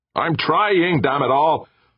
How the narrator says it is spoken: Thornberry roared

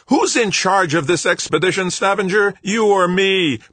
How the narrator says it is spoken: Brennard bellowed

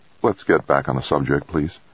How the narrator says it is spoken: Jamie said softly

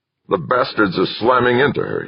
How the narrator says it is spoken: he growled

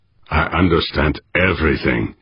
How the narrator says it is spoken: he growled

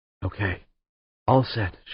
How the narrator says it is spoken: whispered

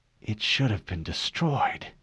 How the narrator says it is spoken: she whispered

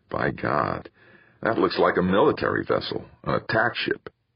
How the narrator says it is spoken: he muttered

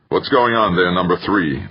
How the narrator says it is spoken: growled

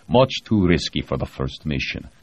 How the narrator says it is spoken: Grechko said flatly

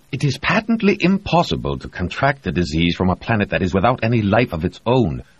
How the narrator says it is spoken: Reed snapped, almost angrily

